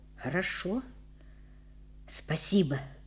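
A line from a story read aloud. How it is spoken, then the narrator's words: Quiet. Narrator (Russian): тихо сказал он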